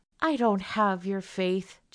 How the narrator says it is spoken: Janie said wearily

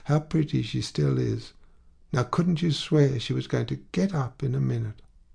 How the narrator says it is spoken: said the landlady, sighing

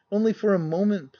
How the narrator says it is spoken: pleaded she

